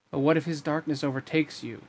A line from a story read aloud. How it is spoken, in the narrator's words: peered back at him nervously